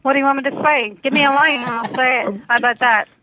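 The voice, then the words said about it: Derry Northern Irish accent. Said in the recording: “did you hear her accent? ... my Derry accent ... this is my Derry accent that I'm speaking in right now.”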